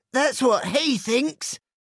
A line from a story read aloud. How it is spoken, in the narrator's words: barked Hot Dog